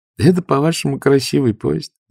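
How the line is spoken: Laughing. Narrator (Russian): засмеялась Сара

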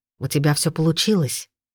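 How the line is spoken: Whisper. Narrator (Russian): шепнул Найджел

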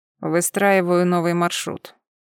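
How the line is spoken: Lazy reply. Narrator (Russian): лениво отозвался он

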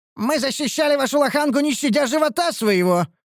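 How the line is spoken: Shouted out. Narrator (Russian): выкрикнул я

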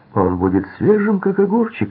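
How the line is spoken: Cheerful joking. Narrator (Russian): весело пошутил Харри

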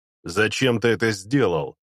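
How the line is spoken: Spiteful question. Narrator (Russian): злобно осведомился Сорендар

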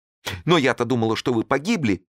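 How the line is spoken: Exclaiming. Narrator (Russian): воскликнула Клара

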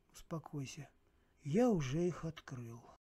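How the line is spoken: Breathed out. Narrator (Russian): выдохнул Сергей

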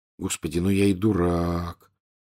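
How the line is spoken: Quiet. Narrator (Russian): тихо произнес он

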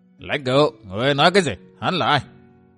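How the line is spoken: Old man, raised voice. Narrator (Vietnamese): Lão cao giọng xét vào

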